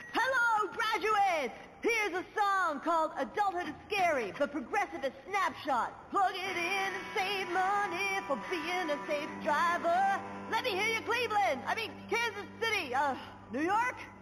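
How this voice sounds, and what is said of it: Rock band frontman stage voice. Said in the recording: “my impression of a geographically challenged rock band delivering a commencement speech”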